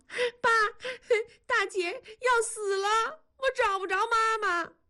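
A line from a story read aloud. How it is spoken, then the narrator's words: Crying. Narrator (Chinese): 南方哭着说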